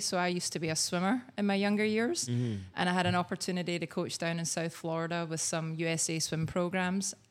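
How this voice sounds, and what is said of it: Slight Scottish accent. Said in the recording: “I have a wee bit of an accent, right? Just a wee bit. ... Just a little bit. ... I was actually born in Scotland”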